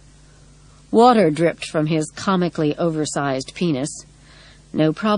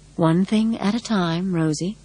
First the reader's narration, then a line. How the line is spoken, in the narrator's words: Practical Sensible whispered